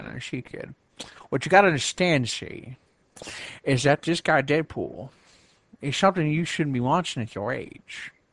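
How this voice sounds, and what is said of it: Put-on 1940s-style accent. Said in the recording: “I'm gonna put on my 40s accent right now”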